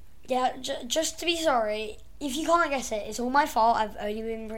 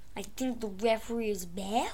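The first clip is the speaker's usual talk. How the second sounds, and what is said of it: Put-on accent, hard to place. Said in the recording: “it's one with an accent again, isn't it? ... I can't quite place the accent ... guess that impression”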